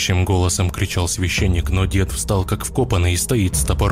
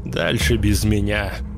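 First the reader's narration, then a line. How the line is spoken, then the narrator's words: Hoarse rasp. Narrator (Russian): Прохрипел он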